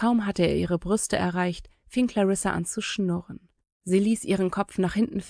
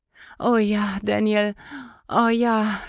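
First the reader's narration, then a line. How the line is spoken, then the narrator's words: Moaning again. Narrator (German): stöhnte Clarissa wieder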